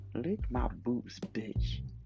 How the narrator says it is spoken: says

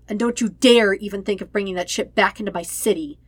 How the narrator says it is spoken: he snarls

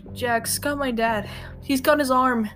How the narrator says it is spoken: Nagisa yelled

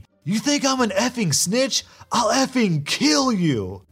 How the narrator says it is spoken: He's struggling to break free and screaming

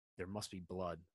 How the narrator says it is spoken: the man said

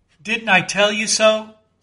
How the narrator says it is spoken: said Flask

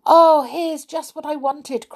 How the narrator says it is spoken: cried Molly

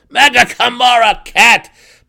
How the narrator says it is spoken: Belwar roared again

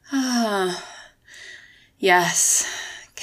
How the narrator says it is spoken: Kennedy moaned

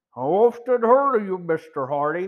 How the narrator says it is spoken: the actor said in a surprising deep voice that had a comical effect in contrast to his diminutive appearance

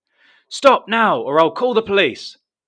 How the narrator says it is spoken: shouts Brian

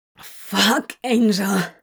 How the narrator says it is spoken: he gasped after a particularly stunning blow

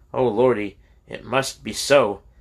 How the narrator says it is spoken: Big Edmund cried

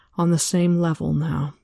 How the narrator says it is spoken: Elaine sighed

